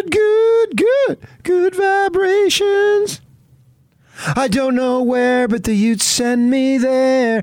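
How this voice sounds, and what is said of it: Singing in falsetto. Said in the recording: “That falsetto.”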